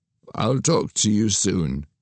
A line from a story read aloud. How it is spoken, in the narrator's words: said, his voice fading